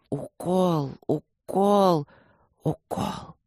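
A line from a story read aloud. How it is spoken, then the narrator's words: Desperate, through clenched teeth. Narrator (Russian): отчаянно сжимая зубы, процедил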